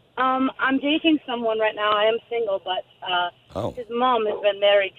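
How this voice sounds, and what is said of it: British London accent. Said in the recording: “are you from the UK? ... I am. I'm from London. ... I love your accent.”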